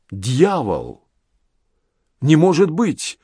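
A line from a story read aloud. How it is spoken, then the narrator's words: Shocked exclamation. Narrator (Russian): воскликнул адъютант, увидев открывшееся его взору зрелище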